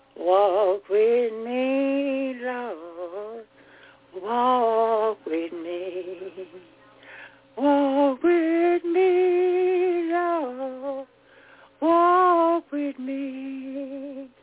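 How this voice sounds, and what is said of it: Hoarse singing voice. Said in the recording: “I'm sort of hoarse.”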